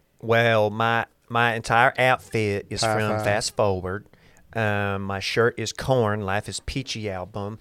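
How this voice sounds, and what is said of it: Put-on Alabama Southern accent. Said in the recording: “just doing the Bama accent”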